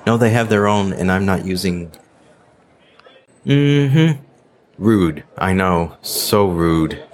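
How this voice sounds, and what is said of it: American accent. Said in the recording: “my accent. Yeah. Uh-huh. Yeah. American.”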